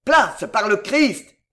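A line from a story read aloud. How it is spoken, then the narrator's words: Booming yell. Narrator (French): hurla le colosse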